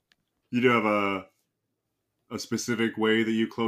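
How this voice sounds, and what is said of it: Usual voice. Nothing is said of it.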